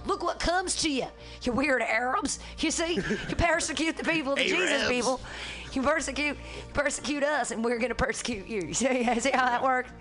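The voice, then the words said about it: Imitates another person's voice. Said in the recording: “I've been doing that voice today because Trump is so on the brain”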